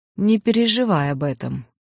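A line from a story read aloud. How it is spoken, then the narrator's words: Dry. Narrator (Russian): сухо ответил великий кудесник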